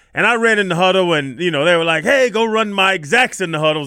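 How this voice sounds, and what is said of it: Southern country accent. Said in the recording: “I'm from Atlanta. I got a country accent.”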